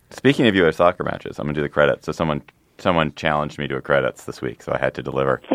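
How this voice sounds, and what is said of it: Usual voice. Nothing is said of it.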